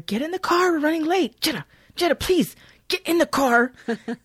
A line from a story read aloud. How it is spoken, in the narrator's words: the blonde woman who's yelling at her